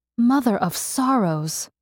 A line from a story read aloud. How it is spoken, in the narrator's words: Mercy breathed at him in disbelief